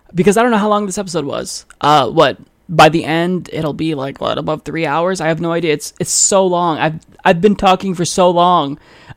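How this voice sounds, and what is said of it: Strained, fading voice. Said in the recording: “I am losing my voice ... time for me to rest my voice”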